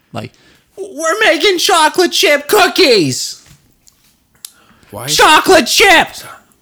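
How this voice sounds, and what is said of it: High-pitched excited imitated voice. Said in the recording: “Get the high-pitched voice going and get all fucking excited ... why does he sound like an old Jewish mother? ... I can't do it nearly as good as him”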